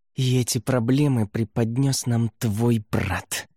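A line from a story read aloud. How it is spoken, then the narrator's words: Venomous male hiss. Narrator (Russian): ядовито прошипел низкорослый мужчина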